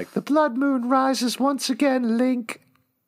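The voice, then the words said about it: Badly done put-on accent. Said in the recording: “horrible ... Accent.”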